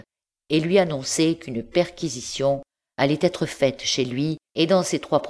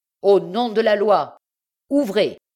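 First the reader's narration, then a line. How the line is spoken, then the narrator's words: Shouted. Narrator (French): cria-t-il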